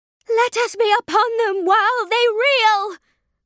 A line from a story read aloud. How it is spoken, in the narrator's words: cried Kaliak